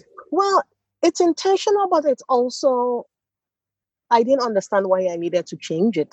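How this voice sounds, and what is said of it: Nigerian accent, slight American, Swedish lilt. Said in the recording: “my accent is very Nigerian ... you can tell that, oh, maybe I lived in the US a little bit, or you can start picking up some of the lilt of a Swede”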